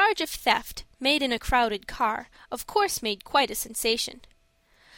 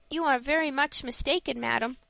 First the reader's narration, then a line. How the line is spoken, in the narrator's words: said Frank quietly